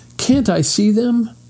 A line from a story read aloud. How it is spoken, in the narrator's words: begged Mr